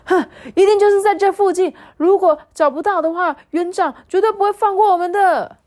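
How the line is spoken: Loud shouting. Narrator (Chinese): 他们大声的喊说

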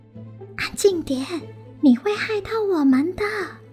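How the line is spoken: Hurried hushed whisper. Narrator (Chinese): 宝儿赶紧小声的制止

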